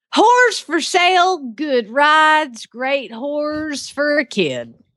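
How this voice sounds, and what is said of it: Thick put-on Southern accent. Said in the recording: “you read it with a southern accent then ... You read it with a thick southern accent then”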